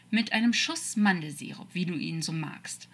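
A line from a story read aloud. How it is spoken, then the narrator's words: Calm, relaxed. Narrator (German): sagte Metatron ruhig, als würden sie gerade gemütlich in einem Café sitzen und keine Riesenschlange bedrohlich die Giftzähne zeigen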